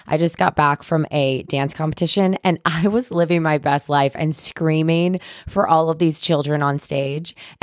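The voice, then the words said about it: Hoarse, strained voice. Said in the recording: “my voice is so shot right now ... I have no voice”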